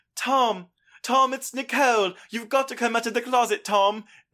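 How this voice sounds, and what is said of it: British-accented Nicole Kidman impression. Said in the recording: “they bring Nicole Kidman in ... That's a British accent, and she's Australian ... You're giving it your best”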